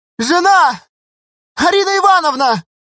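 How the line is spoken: Frightened cry. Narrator (Russian): вскрикнул вне себя от испуга

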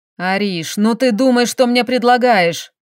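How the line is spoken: Roaring, rumbling husband. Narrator (Russian): взревел муж и, пророкотал

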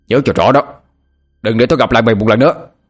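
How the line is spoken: Angry shout. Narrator (Vietnamese): Bằng tức giận nhìn theo mà hét lên

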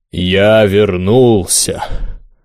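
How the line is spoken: Old man's near-bass voice. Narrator (Russian): Старик произнес чуть ли не басом

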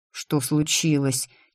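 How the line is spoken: Quiet question. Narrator (Russian): тихонько спросил Патрик

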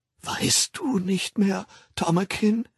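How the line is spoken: Trembling voice. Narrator (German): wiederholte mit bebender Stimme

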